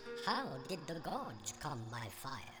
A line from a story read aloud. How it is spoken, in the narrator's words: It was Heraclitus who finally asked, in a squeaky voice